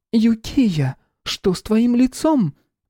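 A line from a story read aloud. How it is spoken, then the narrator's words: Woman crying out. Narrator (Russian): Первой вскрикнула супруга главы дома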